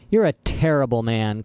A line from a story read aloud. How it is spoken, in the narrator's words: Klaus spat out